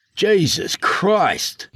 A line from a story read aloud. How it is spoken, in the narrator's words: Miles snarled